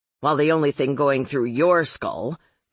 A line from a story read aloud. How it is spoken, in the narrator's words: Marlowe snapped